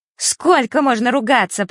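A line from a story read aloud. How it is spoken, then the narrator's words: Piercing shriek. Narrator (Russian): пронзительно взвизгнула она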